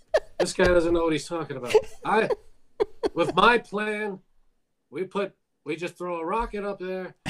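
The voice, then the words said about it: Imitates another person's voice. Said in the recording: “We got to get you a white wig, to complete the ensemble ... Was that a good impression? ... it wasn't bad”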